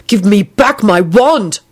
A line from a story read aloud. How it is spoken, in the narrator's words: Neville barked at the warlock